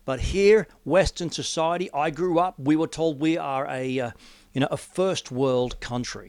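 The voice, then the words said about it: Australian accent. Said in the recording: “I live in Australia. If you're listening from overseas, you probably gather that from the accent.”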